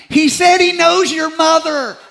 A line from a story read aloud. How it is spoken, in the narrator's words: Her husband shouted back